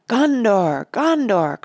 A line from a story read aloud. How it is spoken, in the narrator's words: cried Aragorn